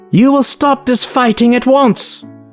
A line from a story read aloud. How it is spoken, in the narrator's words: Valera snapped to her mages